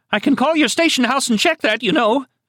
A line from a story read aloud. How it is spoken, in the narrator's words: she nearly shrieked